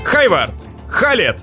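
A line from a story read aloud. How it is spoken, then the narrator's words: Shouted. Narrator (Russian): закричал Кристиан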